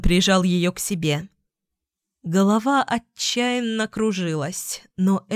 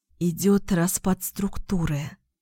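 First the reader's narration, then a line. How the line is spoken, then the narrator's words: Whisper into neck. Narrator (Russian): прошептала ему в шею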